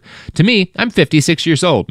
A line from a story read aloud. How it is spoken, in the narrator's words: Mitchell said